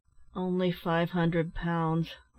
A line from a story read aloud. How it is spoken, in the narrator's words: replied Ned with a sigh